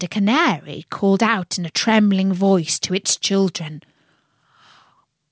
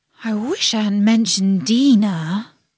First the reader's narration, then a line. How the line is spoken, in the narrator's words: she said to herself in a melancholy tone